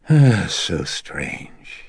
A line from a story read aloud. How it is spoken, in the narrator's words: he breathed out wearily